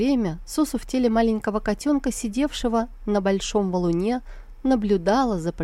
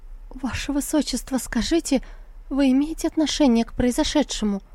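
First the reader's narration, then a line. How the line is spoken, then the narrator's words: Trembling question. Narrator (Russian): Лань-Ань дрожащим голосом спросила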